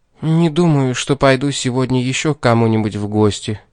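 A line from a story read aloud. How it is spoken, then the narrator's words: Calm. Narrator (Russian): сказала спокойно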